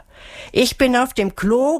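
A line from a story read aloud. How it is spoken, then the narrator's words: Calling out. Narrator (German): rief Melissa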